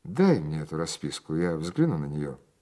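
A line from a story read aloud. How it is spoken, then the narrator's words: Imposing tone. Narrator (Russian): произнес я внушительным тоном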